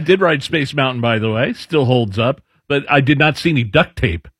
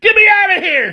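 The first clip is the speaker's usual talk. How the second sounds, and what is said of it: Screaming, panicked shout. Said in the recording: “I'm screaming”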